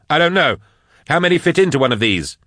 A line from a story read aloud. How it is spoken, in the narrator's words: snapped Nail